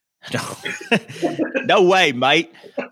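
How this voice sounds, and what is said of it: Bad put-on Australian accent. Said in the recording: “That was an awful, awful Australian accent.”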